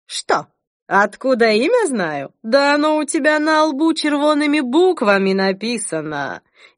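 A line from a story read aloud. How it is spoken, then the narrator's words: Ringing laugh. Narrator (Russian): звонко рассмеялась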